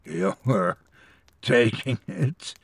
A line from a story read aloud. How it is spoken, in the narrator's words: I croaked